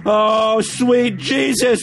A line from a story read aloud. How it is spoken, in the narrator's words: Pete whimpered